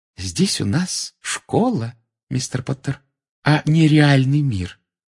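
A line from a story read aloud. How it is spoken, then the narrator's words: Soft. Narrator (Russian): сказала она мягко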